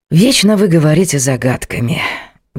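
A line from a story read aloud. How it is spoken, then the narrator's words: Sighing. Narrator (Russian): вздохнул Морис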